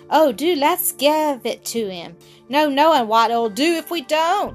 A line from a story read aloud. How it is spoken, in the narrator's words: cried Viney in a fright